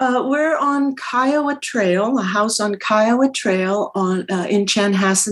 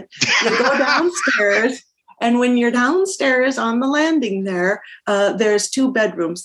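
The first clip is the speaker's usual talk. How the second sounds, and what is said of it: Minnesota accent. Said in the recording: “now I'm all of a sudden speaking in a Minnesota accent”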